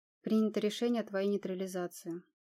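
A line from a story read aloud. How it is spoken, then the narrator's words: Dry. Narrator (Russian): сухо ответил Машков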